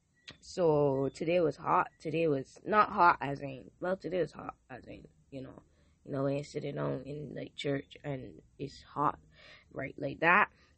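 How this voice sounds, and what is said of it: Hoarse, partly lost voice. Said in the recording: “My voice is kind of semi-gone”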